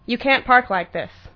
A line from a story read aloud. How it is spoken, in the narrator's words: he spat sternly